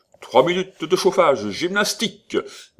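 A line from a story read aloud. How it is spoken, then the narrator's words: Yelling. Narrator (French): hurlait M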